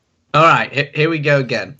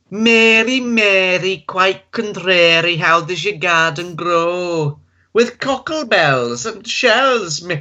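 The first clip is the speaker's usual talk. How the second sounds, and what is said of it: Generic northern English accent, singing. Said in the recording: “Star in northern, generic northern accent from UK. ... Okay, here we go, Northern.”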